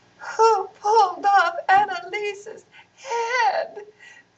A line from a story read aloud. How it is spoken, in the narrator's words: sobbed Shala